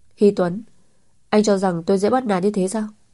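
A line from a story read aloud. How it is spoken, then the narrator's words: Angry cry. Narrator (Vietnamese): Chu Thiến tức giận kêu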